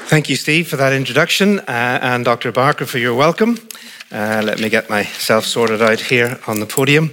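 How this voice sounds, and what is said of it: Northern Irish accent. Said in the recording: “the accent comes from Northern Ireland. So I'm Northern Irish, not English, but British”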